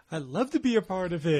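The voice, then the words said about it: Impression of another person's voice. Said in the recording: “I thought he just came in the room, and that was a good impression. ... Banks being one of them”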